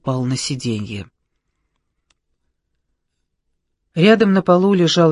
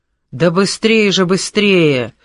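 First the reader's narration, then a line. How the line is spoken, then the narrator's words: Strained shouting. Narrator (Russian): надсадно кричал он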